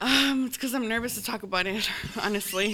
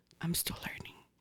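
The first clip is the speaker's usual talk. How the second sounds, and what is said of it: Whispering. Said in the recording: “Why are you whispering?”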